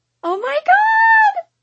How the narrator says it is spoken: Lucy screams

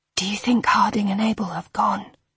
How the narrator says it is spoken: Hal whispered

